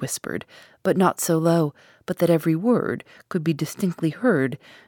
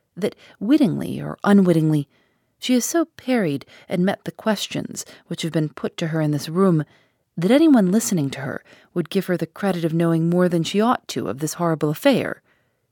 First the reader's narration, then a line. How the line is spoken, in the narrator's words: firmly returned